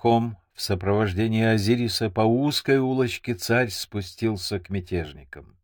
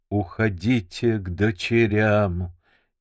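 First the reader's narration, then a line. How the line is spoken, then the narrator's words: Exhausted hoarse wheeze. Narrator (Russian): теряя последние силы, прохрипел Азирис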